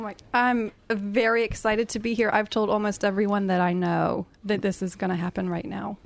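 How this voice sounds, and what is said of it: American accent. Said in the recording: “that gorgeous accent ... Have you heard of the USA?”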